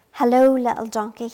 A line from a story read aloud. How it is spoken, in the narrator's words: he said